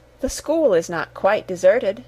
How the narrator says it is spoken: said the ghost

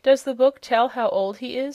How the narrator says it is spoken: asked Button-Bright

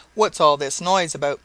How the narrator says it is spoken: he cried in an angry tone

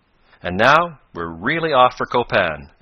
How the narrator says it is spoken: exclaimed Professor Bumper

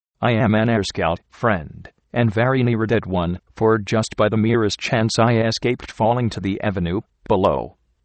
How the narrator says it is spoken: I replied

